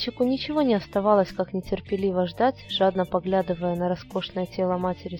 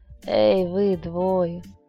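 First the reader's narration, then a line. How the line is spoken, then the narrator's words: Deep chest voice, woman. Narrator (Russian): грудным голосом произнесла женщина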